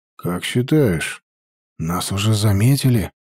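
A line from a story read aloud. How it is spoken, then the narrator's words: Quiet question. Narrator (Russian): тихо спросил Степан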